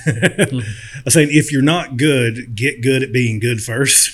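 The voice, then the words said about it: Put-on hillbilly dialect. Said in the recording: “my little bit of hillbilly dialect.”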